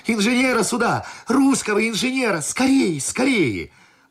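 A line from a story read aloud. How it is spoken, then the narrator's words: Boy shouting. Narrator (Russian): паренек все кричал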